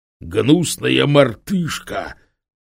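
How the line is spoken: Furious broken hiss. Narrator (Russian): просипел по-английски прерывающийся от бешенства голос

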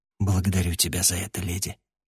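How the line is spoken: Quiet reply. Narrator (Russian): негромко ответил я

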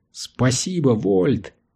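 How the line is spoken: Exclamation. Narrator (Russian): воскликнул Корис

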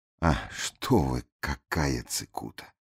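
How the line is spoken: Absent-minded mutter. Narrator (Russian): рассеянно пробормотал Дош

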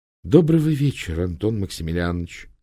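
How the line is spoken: Soft pleasant male voice. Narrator (Russian): сказал мужик мягким приятным голосом

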